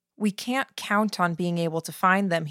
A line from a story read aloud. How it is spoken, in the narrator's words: he said